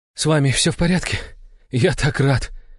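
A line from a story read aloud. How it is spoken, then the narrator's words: Relieved exhale. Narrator (Russian): выдохнул Иван, убедившись, что все его домочадцы живы и здоровы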